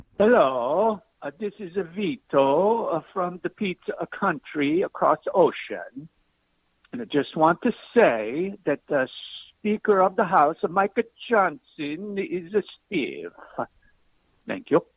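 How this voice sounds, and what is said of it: Put-on Italian accent. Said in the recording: “That word was hard to discern in the Italian accent.”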